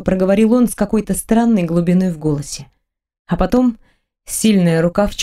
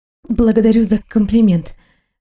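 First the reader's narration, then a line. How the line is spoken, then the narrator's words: Breathy exhale. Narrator (Russian): выдохнула я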